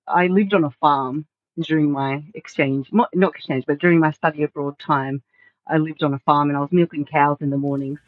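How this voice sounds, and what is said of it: Australian English accent. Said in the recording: “that's kind of where I picked up my Aussie accent”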